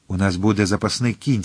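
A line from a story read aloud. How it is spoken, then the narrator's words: Plain. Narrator (Ukrainian): сказав Атос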